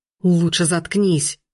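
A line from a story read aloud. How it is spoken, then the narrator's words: Angry shout. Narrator (Russian): Зло крикнул оборотень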